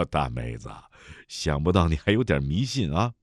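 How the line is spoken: Smiling. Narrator (Chinese): 齐怀仲笑笑

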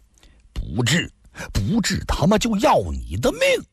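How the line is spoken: Men roaring furiously. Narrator (Chinese): 那几个大汉脖子都气粗了，怒吼地说道

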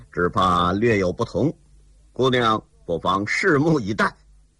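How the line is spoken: Cold. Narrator (Chinese): 齐天恨冷冷地说

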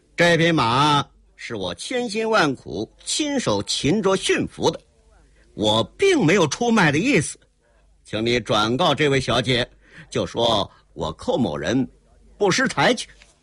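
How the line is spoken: Cold laugh. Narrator (Chinese): 寇英杰冷冷一笑

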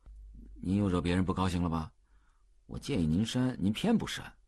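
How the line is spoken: Grumbling mutter. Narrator (Chinese): 秘书又嘟囔道

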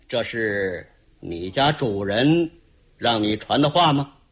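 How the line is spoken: Cold sneer. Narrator (Chinese): 无双剑李铁心当下冷冷一笑

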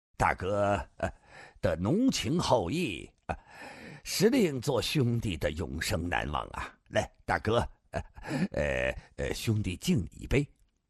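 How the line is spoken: Tipsy, laughing. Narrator (Chinese): 三杯酒下肚，龙啸云的脸更红了，笑道

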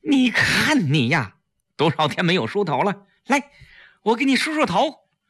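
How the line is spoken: Sad and loud. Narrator (Chinese): 季嫣然难过的大声说

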